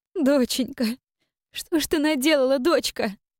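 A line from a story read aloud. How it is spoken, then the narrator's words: Bitter sobbing woman. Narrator (Russian): рыдала женщина, с горечью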